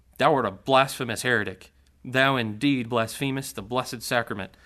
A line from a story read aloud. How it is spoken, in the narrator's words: Taylor was so piously collected and severe upon his antagonist that he exclaimed